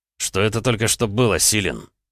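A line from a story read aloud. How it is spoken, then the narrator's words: Barking shout. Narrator (Russian): рявкнул Роман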